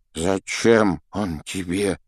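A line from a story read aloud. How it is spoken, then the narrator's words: Trembling voice, question. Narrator (Russian): спросил тот дрогнувшим голосом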